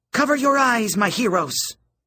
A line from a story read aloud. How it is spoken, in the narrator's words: She shouted